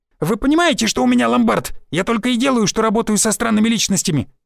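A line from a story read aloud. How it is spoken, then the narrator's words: Shouted. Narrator (Russian): выкрикнул Шульман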